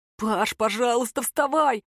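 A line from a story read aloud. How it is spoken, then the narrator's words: Pleading. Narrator (Russian): взмолился Бармута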